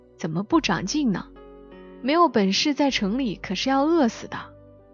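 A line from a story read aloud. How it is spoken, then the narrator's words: Sighing. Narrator (Chinese): 曹哥叹了一口气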